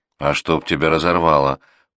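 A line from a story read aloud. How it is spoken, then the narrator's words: Heartfelt grumbling. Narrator (Russian): проворчала Глаша от души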